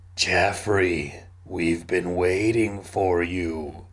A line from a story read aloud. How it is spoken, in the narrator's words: he moaned again